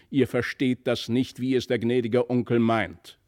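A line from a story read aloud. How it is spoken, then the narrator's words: Mother's angry shout. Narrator (German): rief die Mutter erzürnt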